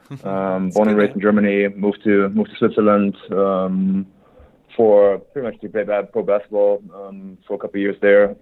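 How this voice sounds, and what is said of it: German accent. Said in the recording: “born and raised in Germany. My accent probably gives me away right away.”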